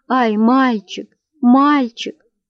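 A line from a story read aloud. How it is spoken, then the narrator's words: Sobbing shout. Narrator (Russian): послышалось рыдание, и голос Верочки снова прокричал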